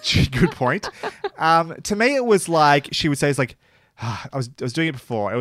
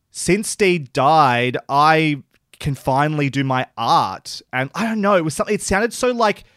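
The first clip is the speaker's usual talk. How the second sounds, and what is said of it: Dry, downward-inflected Australian woman's voice. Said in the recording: “That's a really good impression ... She really does sound to me like an Australian female comedian. Like, she's got that very kind of dry, going, kind of down voice”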